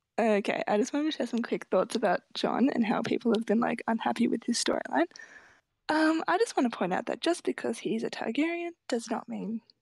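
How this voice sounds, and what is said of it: Speaks with a noticeable accent. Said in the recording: “I love her accent.”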